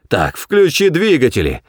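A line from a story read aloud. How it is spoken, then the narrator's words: Roaring. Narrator (Russian): взревел Форд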